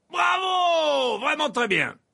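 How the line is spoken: Yelling. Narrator (French): hurlait Verpé

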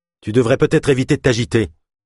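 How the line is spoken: Curt, dry tone. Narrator (French): dit Leif d'un ton sec

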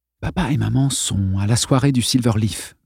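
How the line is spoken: Murmur, forced cheerfulness. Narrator (French): murmura-t-il en essayant de prendre un ton allègre

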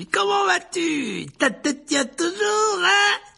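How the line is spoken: Roaring. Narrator (French): rugit-il

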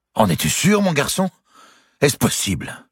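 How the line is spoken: Exclaimed. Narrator (French): s'écria Dame Eliabelle

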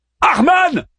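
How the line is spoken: Shout from shadows. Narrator (French): cria Daeman depuis les ombres

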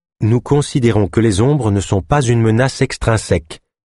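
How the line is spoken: Neutral male tone. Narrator (French): poursuivit-il d'un ton neutre

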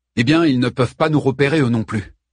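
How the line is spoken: Plain. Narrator (French): dit Pétir

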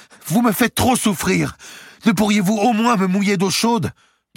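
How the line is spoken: Exclaimed. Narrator (French): Entre deux coups de rasoir, Édouard s'écria

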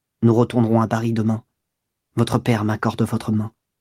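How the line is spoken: Naive murmur. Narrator (French): elle murmura naïvement

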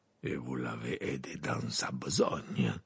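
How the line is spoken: Murmured. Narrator (French): murmura Maugrey

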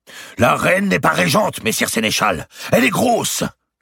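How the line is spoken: Exclaimed. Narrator (French): s'écria

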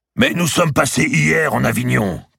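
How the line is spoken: Shouted. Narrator (French): cria-t-il

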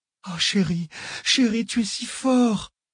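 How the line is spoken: Languid voice. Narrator (French): dit-elle d'une voix languide

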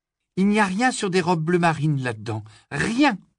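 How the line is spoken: Exclaimed. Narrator (French): s'écria-t-elle

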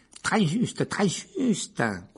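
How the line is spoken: Tiny man squeaking. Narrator (French): couina le minuscule professeur Flitwick

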